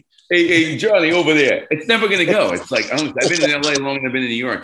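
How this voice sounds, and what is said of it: Bronx New York accent. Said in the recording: “that fucking Bronx accent.”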